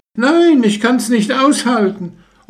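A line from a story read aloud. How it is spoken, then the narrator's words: Calling out. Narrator (German): Sie rief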